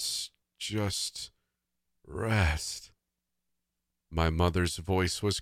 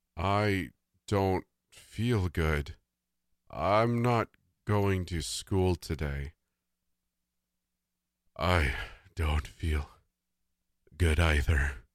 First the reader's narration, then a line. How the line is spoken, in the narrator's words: Dad said in a grave and distorted voice